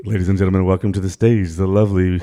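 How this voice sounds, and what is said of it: Announcer-style strip club emcee voice. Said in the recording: “Now do your strip club voice.”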